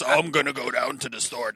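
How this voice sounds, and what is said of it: Disguised witness-protection voice. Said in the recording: “do the voice, like the witness relocation voice”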